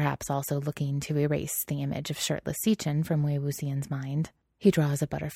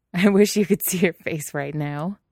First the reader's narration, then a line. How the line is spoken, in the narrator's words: Wei Wuxian laughs